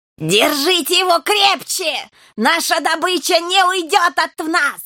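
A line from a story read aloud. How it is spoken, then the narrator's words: Frenzied screaming. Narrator (Russian): вопила бесноватая герла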